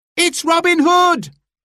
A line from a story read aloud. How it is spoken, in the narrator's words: cried a voice in the crowd